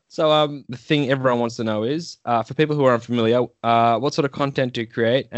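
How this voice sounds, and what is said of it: Congested voice from a cold. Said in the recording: “I've got a bit of a cold coming on, so I'm going to sound fantastic today ... the snot block episode”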